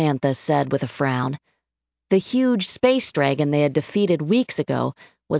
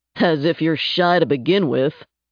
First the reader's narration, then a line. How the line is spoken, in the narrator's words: Napalm replied with a chuckle